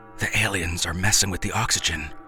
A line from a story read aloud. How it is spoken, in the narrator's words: Grayson gasped